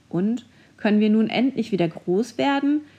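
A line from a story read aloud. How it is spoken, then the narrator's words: Indignant shout. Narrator (German): rief Leo entrüstet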